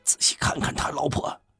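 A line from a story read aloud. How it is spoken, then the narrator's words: Low voice. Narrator (Chinese): 他又低声说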